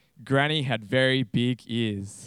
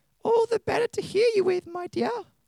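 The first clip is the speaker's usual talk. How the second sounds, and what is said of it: Wolf putting on granny voice. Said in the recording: “in a granny voice.”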